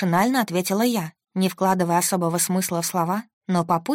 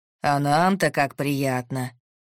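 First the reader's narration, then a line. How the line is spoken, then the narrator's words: Deep bass. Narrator (Russian): пробасил Иван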